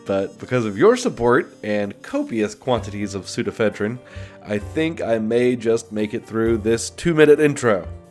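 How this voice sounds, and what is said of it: Congested, sick-sounding voice. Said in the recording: “apologize for my voice. As you may be able to tell, I've got a little bit of a cold”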